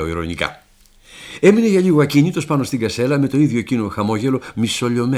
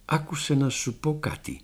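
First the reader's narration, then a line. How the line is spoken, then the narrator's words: Quiet. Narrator (Greek): μου λέει σιγά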